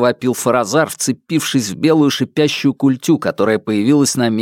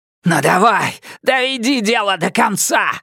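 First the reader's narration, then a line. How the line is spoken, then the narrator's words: Yelling. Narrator (Russian): завопил он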